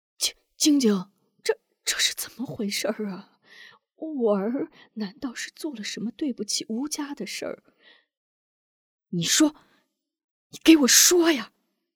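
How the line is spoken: Trembling question. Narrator (Chinese): 韩平颤声问

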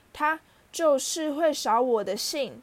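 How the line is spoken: Nasty grinning. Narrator (Chinese): 他对哈利露出恶劣的笑容

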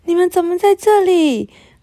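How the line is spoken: Surprised exclamation. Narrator (Chinese): 雷亚惊讶的叫起来

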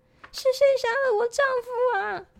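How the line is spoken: Girls shouting in unison. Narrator (Chinese): 三个女孩突然齐声喊道

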